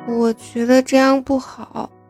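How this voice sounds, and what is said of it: Speaking in a small, quiet voice. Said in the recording (Chinese): “小小声的说道”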